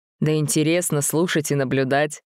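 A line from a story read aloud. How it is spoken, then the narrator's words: Laughing out loud. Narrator (Russian): рассмеялся в голос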